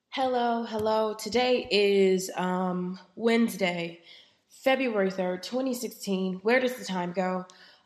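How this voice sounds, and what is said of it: Slightly raspy voice. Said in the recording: “I am slightly under the weather, so my voice is just a, a tad bit raspy. I am getting over a head cold”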